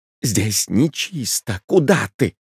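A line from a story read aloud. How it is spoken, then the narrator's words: Angry hiss. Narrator (Russian): прошипел Чаликов, со злобой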